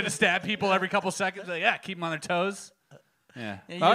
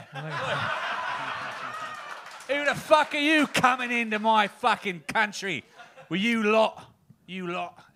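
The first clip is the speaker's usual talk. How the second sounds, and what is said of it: Put-on British gangster accent. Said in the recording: “I watched a lot of Guy Ritchie ... A lot of Harry Potter and Peaky Blinders. Somewhere in between there ... You should do magic with that accent ... Peaky Potter”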